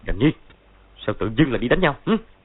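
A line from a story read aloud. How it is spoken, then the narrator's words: Barking. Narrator (Vietnamese): Võ Tâm Thông quát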